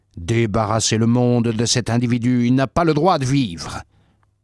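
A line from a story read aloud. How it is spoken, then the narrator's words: Crowd shouting. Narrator (French): Ils criaient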